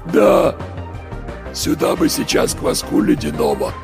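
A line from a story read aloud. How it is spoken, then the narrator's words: Voiceless hoarse wheeze. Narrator (Russian): просипел кто-то без голоса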